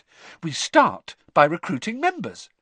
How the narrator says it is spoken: said Hermione happily

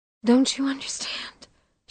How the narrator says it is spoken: She whispers

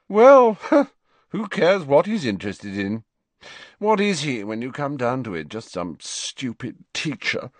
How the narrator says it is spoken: Malfoy yawned ostentatiously

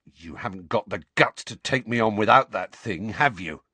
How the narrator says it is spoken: Dudley snarled

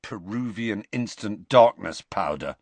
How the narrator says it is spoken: said Ron bitterly

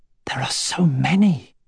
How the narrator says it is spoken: whispered

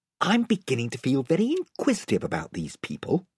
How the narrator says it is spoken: whispered Eustace to Edmund

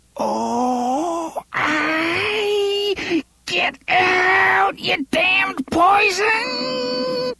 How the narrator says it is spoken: he said in a voice that was almost a squeal

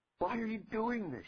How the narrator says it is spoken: shouted

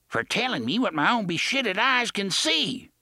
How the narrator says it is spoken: Gasher yelled

